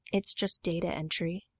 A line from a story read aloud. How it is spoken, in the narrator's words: Cody muttered